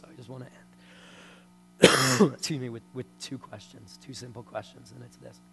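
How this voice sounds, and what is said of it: Strained, voice giving out. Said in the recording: “I'm about to lose my voice”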